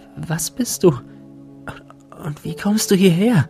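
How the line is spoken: Breathless question. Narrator (German): fragte sie atemlos

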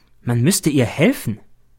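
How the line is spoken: Plain. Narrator (German): sagt der B

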